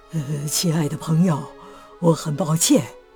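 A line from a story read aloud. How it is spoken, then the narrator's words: Worried. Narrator (Chinese): 科内留斯非常担忧，对他说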